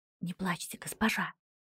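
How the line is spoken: Whispered. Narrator (Russian): прошептала Линетта

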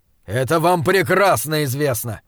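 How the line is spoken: Growling. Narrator (Russian): зарычал Джошуа

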